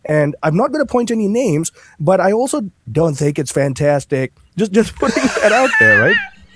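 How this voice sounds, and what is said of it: Imitates another person's voice. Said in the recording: “I didn't know you were going to do impersonation.”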